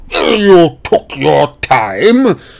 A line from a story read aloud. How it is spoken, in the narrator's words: roared Vernon Dursley